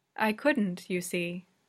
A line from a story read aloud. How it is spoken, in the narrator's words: says Anthy calmly